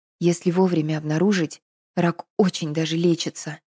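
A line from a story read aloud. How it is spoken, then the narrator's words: Whisper. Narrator (Russian): прошептала Надя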